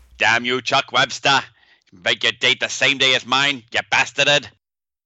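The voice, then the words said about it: Poor put-on New England accent. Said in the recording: “Is that your attempt at a New England accent? ... It's almost as bad as your Australian accent.”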